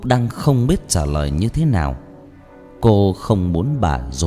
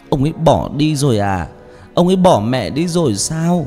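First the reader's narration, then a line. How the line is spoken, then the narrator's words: Sobbing. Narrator (Vietnamese): Rồi bật khóc nức nở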